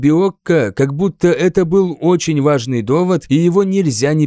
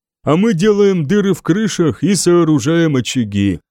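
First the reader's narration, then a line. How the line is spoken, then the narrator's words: Sad. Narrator (Russian): печально произнес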